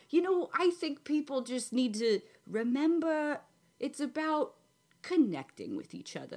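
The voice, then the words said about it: New York accent. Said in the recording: “Are you a local New Yorker? I just noticed the accent. It really came out in the last second or so.”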